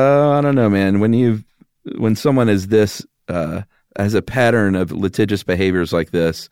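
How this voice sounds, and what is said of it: Usual voice. Nothing is said of it.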